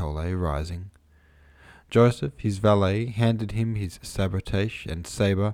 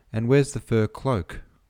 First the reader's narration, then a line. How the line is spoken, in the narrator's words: asked Dolokhov